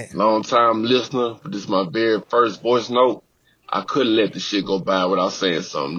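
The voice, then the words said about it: Louisiana accent. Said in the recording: “this accent clear as day right now ... I'm already getting more New Orleans. I know it's Baton Rouge, but I'm getting more Louisiana”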